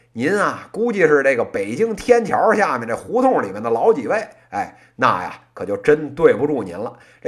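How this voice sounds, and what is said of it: Beijing accent, heavy erhua. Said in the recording (Chinese): “您这说的不是普通话，是北京话 ... 您这个说话乱加儿化音，假装北京口音 ... 咱就正经生在北京，长在北京 ... 自己可能是偏北城的口音”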